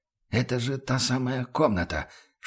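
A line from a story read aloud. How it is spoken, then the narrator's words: Whispered. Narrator (Russian): шепотом выговорил он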